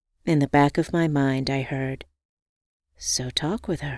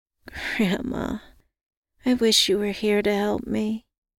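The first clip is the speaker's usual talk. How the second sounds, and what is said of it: Low, quiet voice. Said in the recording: “in a low voice”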